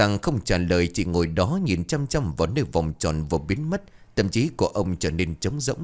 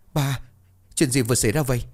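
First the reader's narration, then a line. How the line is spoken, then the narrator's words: Crying, trembling voice. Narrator (Vietnamese): Luân run rẩy bật khóc, giọng run rẩy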